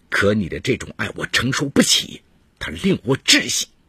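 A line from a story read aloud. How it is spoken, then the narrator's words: Through gritted teeth. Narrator (Chinese): 展先东咬牙切齿地说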